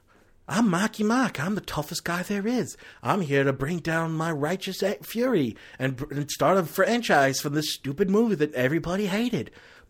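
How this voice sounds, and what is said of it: Imitates another person's voice, badly. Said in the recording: “doing a bad Marky Mark impression.”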